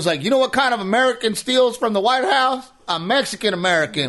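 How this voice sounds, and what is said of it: Put-on Southern redneck accent. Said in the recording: “I'm offended by that accent. Why do I gotta be Southern? ... you go Southern ... You're all redneck now.”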